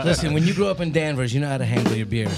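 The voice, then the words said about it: Put-on New England accent, fairly convincing. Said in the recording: “I like that New England accent there. That was solid. ... The New England one's a little bit better”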